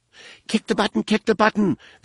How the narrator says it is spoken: the alien squealed in a pained voice

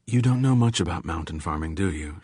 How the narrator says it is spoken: She said kindly

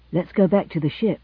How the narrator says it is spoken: panted Alvin

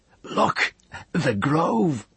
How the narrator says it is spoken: he cried, awestruck

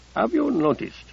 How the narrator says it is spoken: said Abdelkader quietly

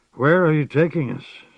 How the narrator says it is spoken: Sparrowhawk asked hoarsely

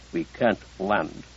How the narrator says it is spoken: Collier said quietly

